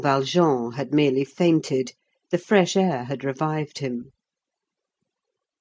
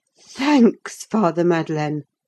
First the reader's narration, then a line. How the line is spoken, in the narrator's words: cried